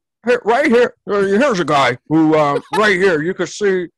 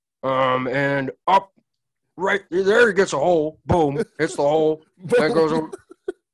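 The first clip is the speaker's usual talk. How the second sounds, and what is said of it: Imitates another person's voice. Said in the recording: “that was a terrible impression”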